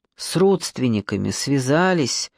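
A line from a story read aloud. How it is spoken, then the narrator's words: Tired question. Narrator (Russian): устало спросил он у Камышова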